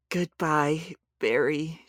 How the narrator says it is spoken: she whispered

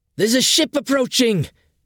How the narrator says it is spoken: shouted Adi

